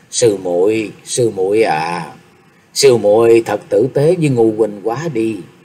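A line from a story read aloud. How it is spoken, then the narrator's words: Soft murmur. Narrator (Vietnamese): Phương Sách lẩm bẩm khẽ nói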